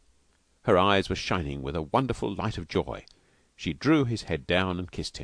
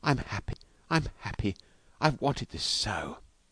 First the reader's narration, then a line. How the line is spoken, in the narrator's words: she whispered